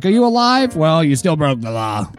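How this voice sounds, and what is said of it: Impression of an Idaho cop. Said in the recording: “That was an impression of the cop. ... it was an impression of an Idaho cop.”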